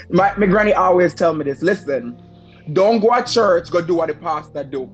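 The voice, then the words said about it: Switches into own home dialect. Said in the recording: “I'm going to switch over my own dialect.”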